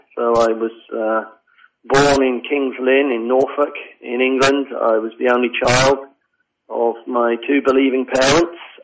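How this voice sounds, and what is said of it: English accent. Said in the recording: “As you can probably tell by my accent, I'm from England.”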